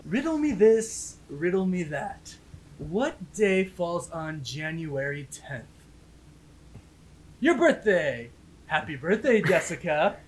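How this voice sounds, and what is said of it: Sassy Riddler character voice. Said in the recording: “best impression of the Riddler ... a little bit of sass on it”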